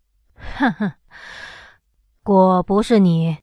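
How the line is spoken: Laughing. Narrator (Chinese): 他笑道

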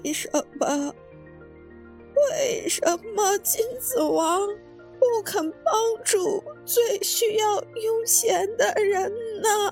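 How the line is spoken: Despairing old beggar crying. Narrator (Chinese): 老乞丐绝望了，一边哭一边说

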